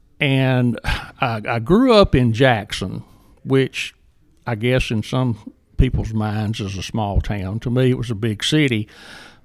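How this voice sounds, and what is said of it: Southern American accent. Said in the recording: “As you might can tell from my accent, I'm proudly Southern.”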